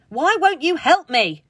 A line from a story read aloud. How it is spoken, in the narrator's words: Clara bellowed again